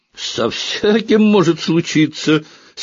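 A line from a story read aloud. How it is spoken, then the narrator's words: Angry shout. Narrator (Russian): сердито крикнул он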